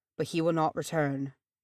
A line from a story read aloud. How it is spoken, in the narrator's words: he said softly